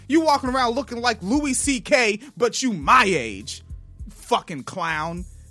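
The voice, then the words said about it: Yelling. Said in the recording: “I'm yelling.”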